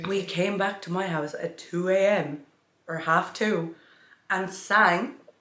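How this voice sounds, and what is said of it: Husky, strained voice. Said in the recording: “My voice still isn't recovered. ... in its husky era. ... your voice literally was gone”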